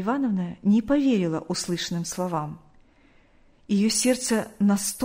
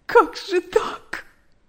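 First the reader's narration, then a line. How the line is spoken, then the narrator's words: Sobbing woman. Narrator (Russian): рыдала она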